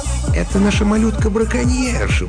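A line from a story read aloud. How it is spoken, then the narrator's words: Cooing. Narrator (Russian): проворковал Стэн Бэдж, лесничий Маскела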